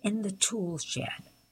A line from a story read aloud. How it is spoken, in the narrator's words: he sneered